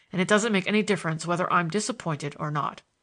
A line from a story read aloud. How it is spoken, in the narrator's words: I growled